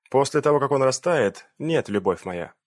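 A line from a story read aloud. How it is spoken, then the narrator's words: Rather dry. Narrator (Russian): довольно сухо произнес инспектор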